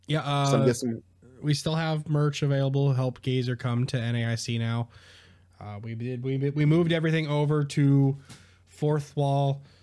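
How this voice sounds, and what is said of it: Strained, worn-out sick voice. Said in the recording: “I'm sick ... I need sleep and some. I need more water and some medicine ... My voice is almost at its limits right now.”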